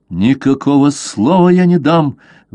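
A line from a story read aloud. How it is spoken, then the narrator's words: Angry exclamation, young man. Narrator (Russian): воскликнул побледневший от гнева юноша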